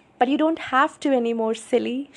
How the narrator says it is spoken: she laughed

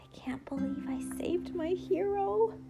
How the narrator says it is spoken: she whispered excitedly to herself

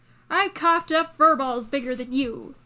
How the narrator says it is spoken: the Siamese spat at Shiraz

